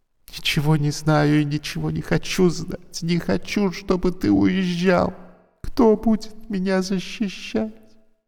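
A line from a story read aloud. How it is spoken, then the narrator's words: Tearful, trying to smile. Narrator (Russian): Она попыталась улыбнуться сквозь слезы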